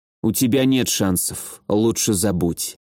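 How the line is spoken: Quiet. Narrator (Russian): тихо сказала Шарлотта

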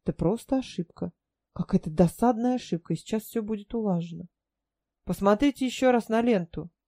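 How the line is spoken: Calmer request. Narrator (Russian): более спокойным тоном попросила

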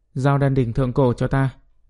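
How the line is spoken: Calm cold voice. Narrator (Vietnamese): bình thản, lạnh lùng, nói

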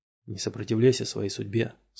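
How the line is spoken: Plain. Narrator (Russian): сказал учитель

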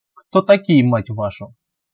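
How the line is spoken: Young commander's snort. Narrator (Russian): Еще раз хмыкнул довольно молодой командир сталкерской группы

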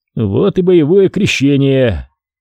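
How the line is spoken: Speaking after deep sigh. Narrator (Russian): Полесьев, еще раз глубоко вздохнув, произнес

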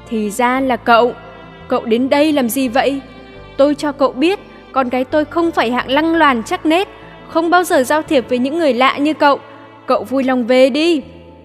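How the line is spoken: Stern voice. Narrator (Vietnamese): Bà nghiêm giọng

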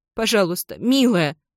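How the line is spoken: Sobbing. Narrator (Russian): всхлипываю я

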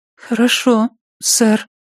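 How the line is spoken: Timid, forced out. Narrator (Russian): робко выдавила

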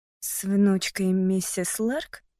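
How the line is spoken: Quiet question. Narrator (Russian): спросила я тихим голосом

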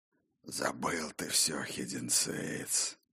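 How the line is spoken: Hoarse rasp. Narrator (Russian): хрипел Бран

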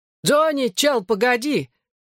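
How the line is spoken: Shout. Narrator (Russian): крикнул Хьюи Бикс

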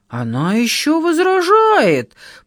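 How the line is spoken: Roaring like wounded bear. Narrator (Russian): проревела тетка, как раненая медведица

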